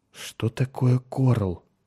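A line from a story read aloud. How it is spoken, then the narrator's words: Confused mumble. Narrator (Russian): пробормотал Меррик, окончательно сбитый с толку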